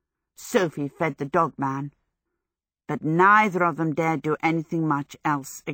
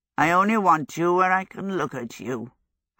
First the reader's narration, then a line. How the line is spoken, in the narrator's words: Howl croaked